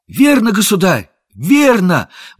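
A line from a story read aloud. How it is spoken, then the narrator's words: Exclamation. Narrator (Russian): воскликнул Том Кенти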